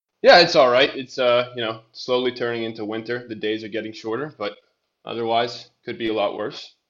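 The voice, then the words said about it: Foreign accent. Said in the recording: “I can tell by your accent that you're not in this country”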